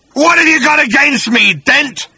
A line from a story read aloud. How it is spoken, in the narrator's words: snarled the creature